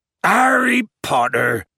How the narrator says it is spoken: bellowed Hagrid

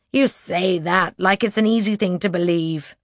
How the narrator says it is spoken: she says with a snort

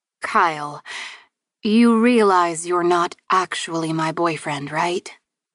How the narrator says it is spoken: chuckled

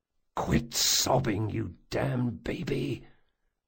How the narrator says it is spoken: Jean hissed

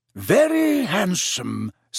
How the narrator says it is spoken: said Slughorn smoothly

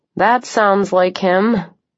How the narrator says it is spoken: I said dryly

